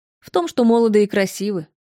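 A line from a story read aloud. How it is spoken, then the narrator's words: Snorting woman. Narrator (Russian): хмыкнула собеседница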